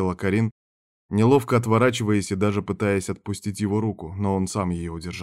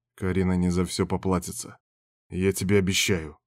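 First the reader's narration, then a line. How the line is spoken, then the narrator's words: Growling. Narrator (Russian): рыкнул он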